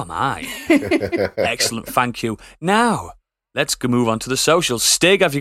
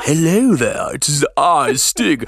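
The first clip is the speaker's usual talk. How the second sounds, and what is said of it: Put-on Yorkshire accent. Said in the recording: “Stig's accent is like ... Here is my Yorkshire accent.”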